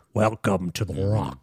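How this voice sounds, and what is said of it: Sean Connery-style Scottish accent impression. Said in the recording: “That's my Sean Connery impression. ... It's a good impression.”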